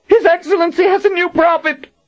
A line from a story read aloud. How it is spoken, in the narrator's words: Warren cried out